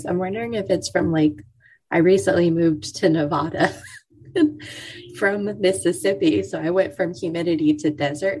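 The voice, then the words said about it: Crackly, fading voice. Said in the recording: “my voice is crackly... I'm holding on to my voice, but it's trying to leave me... I just am losing my voice”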